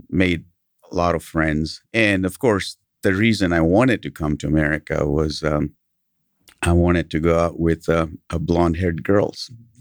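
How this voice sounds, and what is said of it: Smooth British accent. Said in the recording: “I had a British accent ... your smooth accent”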